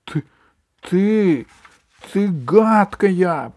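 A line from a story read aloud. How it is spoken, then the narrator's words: Squeaky voice. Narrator (Russian): пропищал он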